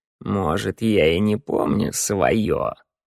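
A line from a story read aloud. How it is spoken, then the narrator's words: Creaky old voice. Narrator (Russian): проскрипел старик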